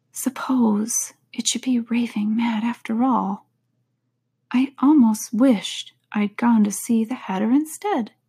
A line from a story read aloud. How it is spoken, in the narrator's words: saying to herself